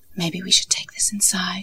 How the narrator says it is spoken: he whispered to me

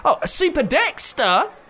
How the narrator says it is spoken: exclaimed

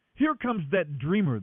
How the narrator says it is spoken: they exclaimed

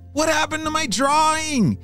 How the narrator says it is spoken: James shouted

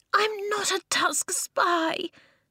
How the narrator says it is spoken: Eska cried

